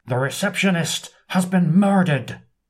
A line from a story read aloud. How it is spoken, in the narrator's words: shouts